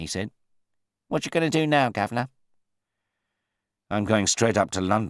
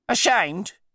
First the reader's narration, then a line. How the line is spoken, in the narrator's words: he cried